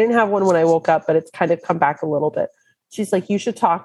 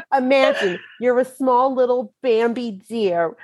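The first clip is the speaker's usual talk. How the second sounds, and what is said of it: Put-on Brooklyn accent. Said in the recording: “talk with your Brooklyn accent ... now I have to talk in my Brooklyn accent, pretending like I'm Marissa Tomei.”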